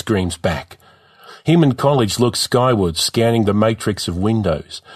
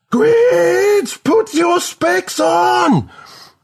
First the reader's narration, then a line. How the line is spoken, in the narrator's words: Melody screams again